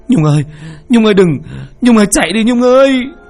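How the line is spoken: Terrified scream. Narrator (Vietnamese): Duẩn sợ hãi, miệng hét lên

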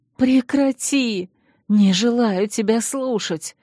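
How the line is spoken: Indignant, choked wheeze. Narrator (Russian): возмущенно прохрипела я, пытаясь вырваться из душащих объятий

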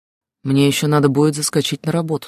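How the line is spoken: Plain. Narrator (Russian): сказал он

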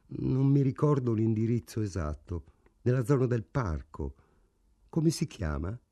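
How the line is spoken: Flat colorless voice. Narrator (Italian): Frank rispose con voce incolore

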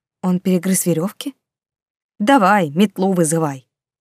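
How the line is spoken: Angry snort, rat. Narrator (Russian): Зло фыркнул крыс

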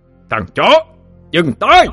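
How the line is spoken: Deafening echoing roar. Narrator (Vietnamese): Tiếng gầm vang dội trong mật thất làm cho những người còn lại hoa mắt chóng mặt, màng nhĩ như bị xé toạc đi

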